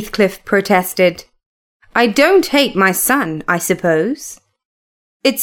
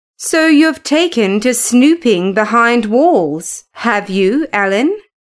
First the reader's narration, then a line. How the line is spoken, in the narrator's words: said Heathcliff